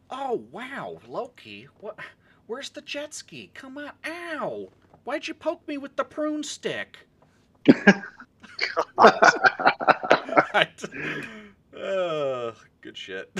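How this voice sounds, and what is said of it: Imitates a character's voice. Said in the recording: “your best Mobius impression.”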